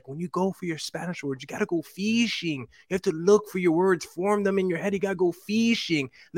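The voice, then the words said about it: Thick Argentine accent. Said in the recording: “She had like a very thick, like Argentine accent.”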